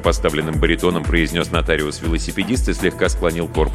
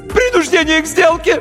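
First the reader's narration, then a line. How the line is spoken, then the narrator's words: High-pitched cracking wail. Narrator (Russian): неожиданно высоким юношеским голосом завопил нотариус и дал петуха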